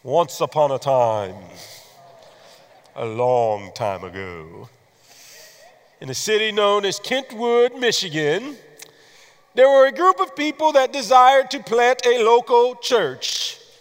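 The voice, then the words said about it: Storyteller voice. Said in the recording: “put on my storyteller voice? ... Can I use my storyteller voice?”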